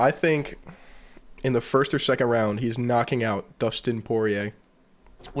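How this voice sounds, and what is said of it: Usual voice. Nothing is said of it.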